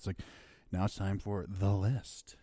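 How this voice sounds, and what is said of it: Sexy hype voice. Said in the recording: “It's a sexy voice.”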